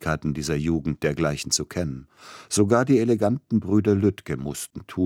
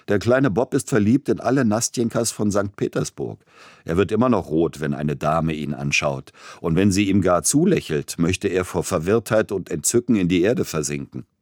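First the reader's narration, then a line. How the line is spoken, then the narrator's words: Young man, laughing. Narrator (German): Einer seiner jungen Freunde sagte lachend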